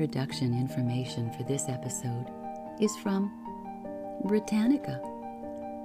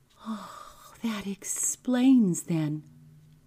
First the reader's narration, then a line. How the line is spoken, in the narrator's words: I gasped